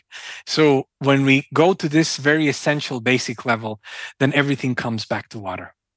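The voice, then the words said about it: Slight foreign accent. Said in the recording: “you have a bit of an accent”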